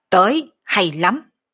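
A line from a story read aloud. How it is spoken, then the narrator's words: Fearless loud shout. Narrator (Vietnamese): Đoàn Thiên Tùng chợt loay hắc mang, không chút kinh hoảng quát lớn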